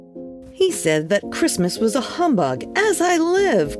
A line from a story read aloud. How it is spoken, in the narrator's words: cried Scrooge's nephew